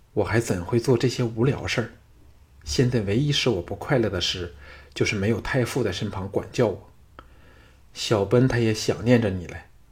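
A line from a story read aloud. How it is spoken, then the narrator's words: Low voice. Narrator (Chinese): 小盘低声说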